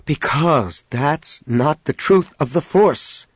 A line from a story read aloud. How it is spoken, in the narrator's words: Jason answered just as sharply